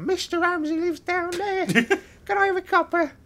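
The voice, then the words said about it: Exaggerated Victorian street urchin voice. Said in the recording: “That's me doing a horrendous caricature of a Victorian street urchin.”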